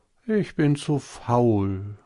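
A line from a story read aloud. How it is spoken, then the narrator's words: Sighing. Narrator (German): sagte es und seufzte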